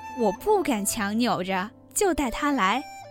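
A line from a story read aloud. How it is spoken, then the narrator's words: Grinning. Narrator (Chinese): 贾蓉笑嘻嘻地说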